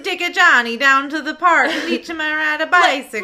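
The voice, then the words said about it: Exaggerated Queens New York accent, Mario-like. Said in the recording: “We live in Queens... mouth full of marbles... Now you're just going, like, full Mario.”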